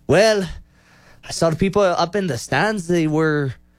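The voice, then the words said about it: Poor attempt at Irish accent. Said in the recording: “We're gonna try to do an Irish accent ... I cannot do this. ... That's terrible. That's horrible.”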